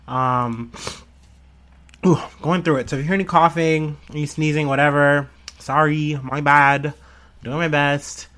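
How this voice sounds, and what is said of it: Sick-sounding voice. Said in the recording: “I got sick this week. You can probably hear it in my voice.”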